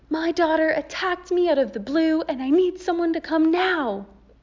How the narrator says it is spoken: yell

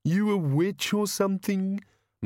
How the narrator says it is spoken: moaned the bogeyman

